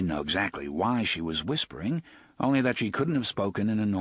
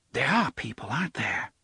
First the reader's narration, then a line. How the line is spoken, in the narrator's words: she whispered